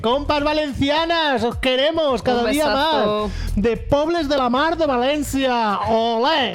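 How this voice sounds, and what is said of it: Exaggerated put-on accent, exclaimed. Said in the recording (Spanish): “Y este acento tan... Bueno, disculpadme, por favor.”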